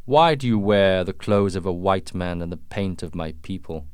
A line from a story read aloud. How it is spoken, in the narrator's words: asked the chief